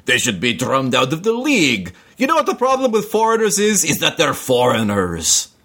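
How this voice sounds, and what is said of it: Put-on Russian accent. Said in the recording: “And what accent was that supposed to be? ... That was definitely Russian. ... they're not all great.”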